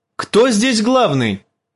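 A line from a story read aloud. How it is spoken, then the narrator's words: Shouted. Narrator (Russian): крикнул он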